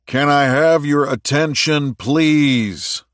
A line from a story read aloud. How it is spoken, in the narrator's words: Richard bellowed at the top of his lungs